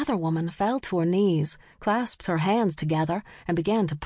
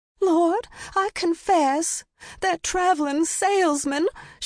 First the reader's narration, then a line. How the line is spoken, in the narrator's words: she cried